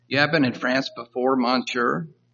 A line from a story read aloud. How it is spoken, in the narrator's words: the customs officer asked sarcastically